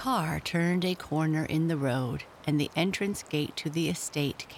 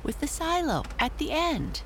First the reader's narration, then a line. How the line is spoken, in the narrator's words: cried Amy